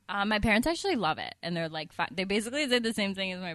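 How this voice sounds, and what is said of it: Usual voice. Nothing is said of it.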